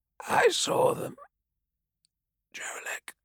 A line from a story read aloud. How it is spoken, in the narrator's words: Saw Talgron whispered